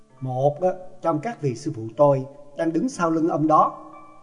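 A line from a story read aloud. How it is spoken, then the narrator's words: Smiling. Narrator (Vietnamese): Đoàn Dự mỉm cười nói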